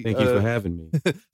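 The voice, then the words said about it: Sultry 70s soul DJ voice. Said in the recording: “He's got that sultry... Sultry 70s soul DJ voice.”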